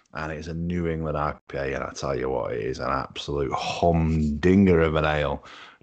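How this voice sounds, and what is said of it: Hoarse, sore-throated voice. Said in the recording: “soothing on this throat, which you can probably hear. I'm suffering from laryngitis a little bit.”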